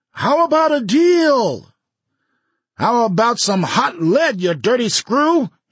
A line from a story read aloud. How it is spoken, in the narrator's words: he screamed at Finner